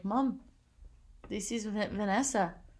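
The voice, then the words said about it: Put-on accent. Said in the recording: “that's a great whatever accent that is.”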